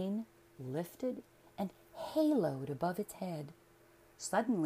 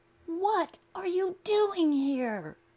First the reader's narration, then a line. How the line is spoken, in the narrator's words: the boy shouted